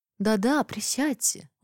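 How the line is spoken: Kind, caring tone. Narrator (Russian): уже другим, благожелательным, даже заботливым тоном повторила Алисия

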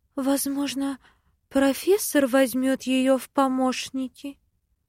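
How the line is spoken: Timid interjection. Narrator (Russian): Робко встревает завхоз

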